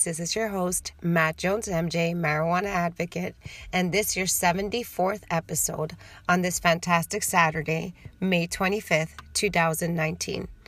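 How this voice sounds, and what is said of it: Slightly raspy, dry-mouthed voice. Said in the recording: “My voice is a little raspy today ... I have a little bit of cotton ball mouth”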